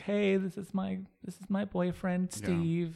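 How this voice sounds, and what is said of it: Imitates another person's voice. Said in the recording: “Good impression of me.”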